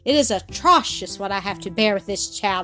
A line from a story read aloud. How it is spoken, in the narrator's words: exclaimed Miss Rottenmeier